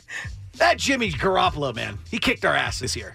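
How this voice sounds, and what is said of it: Gravelly Sean McVay impression. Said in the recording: “Do it as Sean McVay ... a gravelly ... Voice.”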